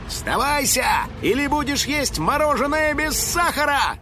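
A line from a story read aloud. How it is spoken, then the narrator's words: Shouted, house spirit. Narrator (Russian): крикнул домовой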